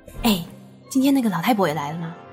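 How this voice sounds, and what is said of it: Quiet, hushed question. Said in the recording (Chinese): “珊迪小声的问。”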